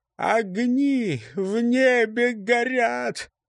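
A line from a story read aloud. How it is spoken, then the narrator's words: Toothless, miserable mumble. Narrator (Russian): прошамкала несчастная Калич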